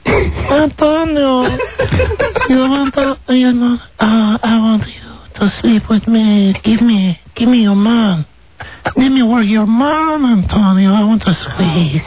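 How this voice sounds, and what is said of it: Imitates another person's voice. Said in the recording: “you do a great, great impression of your wife speaking ... you like to hear my Melanie? ... Melanie Griffith speaking”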